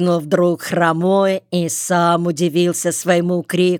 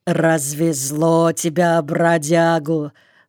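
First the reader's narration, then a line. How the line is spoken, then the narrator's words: Through clenched teeth. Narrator (Russian): Плотно сжав зубы, процедил он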